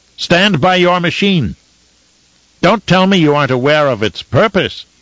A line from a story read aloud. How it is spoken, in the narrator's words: he shouted at them